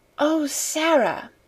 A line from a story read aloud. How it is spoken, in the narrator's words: she whispered joyfully